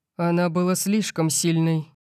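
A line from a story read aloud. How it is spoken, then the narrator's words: Growling. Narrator (Russian): прорычал я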